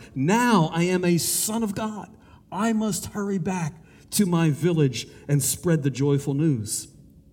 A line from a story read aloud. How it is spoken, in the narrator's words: with joy he cried